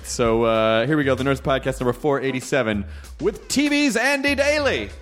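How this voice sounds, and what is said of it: Bad Andy Daly impersonation. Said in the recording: “That was a bad Andy Daly impersonation.”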